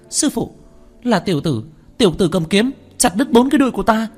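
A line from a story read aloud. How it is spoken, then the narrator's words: Shrill woman's scream. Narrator (Vietnamese): Nữ tử đông doanh thấy Tiểu Thất, tiếng hét chói tai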